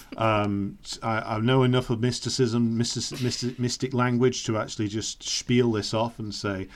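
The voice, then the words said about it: Speaks with a regional accent. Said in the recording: “you've got the accent.”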